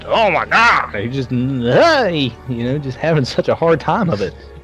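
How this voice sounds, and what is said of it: Exaggerated funny character voice. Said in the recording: “we're making that funny voice. He uses that exact voice”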